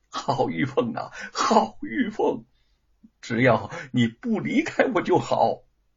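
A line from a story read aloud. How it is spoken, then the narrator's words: Laughing. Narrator (Chinese): 忽然笑了起来，笑道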